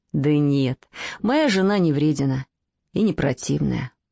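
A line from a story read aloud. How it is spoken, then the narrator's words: Sighing. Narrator (Russian): вздохнул молодой человек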